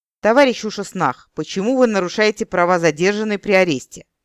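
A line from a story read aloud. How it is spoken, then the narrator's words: Stern orc question. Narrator (Russian): строго спросил орк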